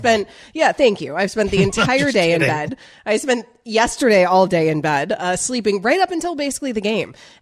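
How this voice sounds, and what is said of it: Hoarse, sick-sounding voice. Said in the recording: “You sound terrible ... I'm losing my voice.”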